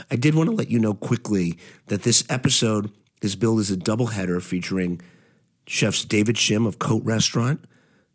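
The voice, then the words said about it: Congested, allergy-affected voice. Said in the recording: “As you might be able to hear in my voice, I am suffering from incredible allergies”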